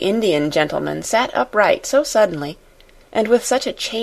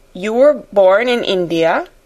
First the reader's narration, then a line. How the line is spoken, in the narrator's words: he exclaimed